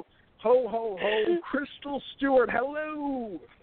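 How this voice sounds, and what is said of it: Tacky radio announcer voice. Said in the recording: “really laying on that like that tacky radio announcer voice thick there”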